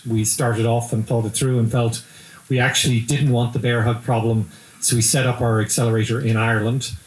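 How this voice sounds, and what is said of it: Irish accent. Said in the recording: “you can tell from my accent ... we have an affinity for Ireland”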